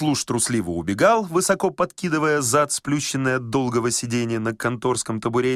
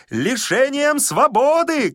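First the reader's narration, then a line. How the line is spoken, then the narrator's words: Shouting after someone. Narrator (Russian): кричал Козлевич вдогонку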